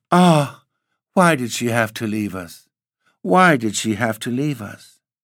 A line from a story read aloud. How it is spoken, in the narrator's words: A wave of emotion surged through her, and again she quavered out